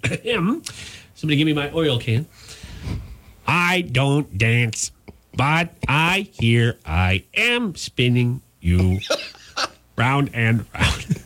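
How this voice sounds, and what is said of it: Imitated robot voice. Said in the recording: “Tell me if you get this accent. ... Is it a robot? ... It is a robot.”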